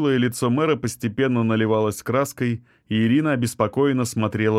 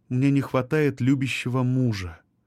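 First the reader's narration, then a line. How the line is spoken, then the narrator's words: Quiet reply. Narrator (Russian): тихо ответила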